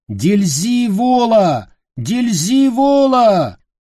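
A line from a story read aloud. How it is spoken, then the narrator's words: Repeated shouting. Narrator (Russian): Вновь и вновь кричал он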